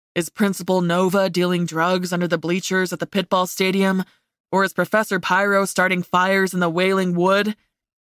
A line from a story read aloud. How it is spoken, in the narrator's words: He chuckled at his own words